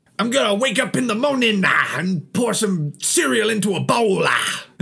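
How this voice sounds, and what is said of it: Imitates another person's voice. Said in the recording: “doing a Hetfield impression.”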